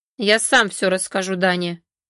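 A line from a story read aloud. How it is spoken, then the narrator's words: Sneering threat. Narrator (Russian): пригрозил Сергей, зло ухмыляясь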